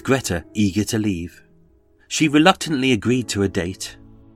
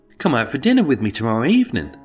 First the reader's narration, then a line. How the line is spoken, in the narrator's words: quickly piped up with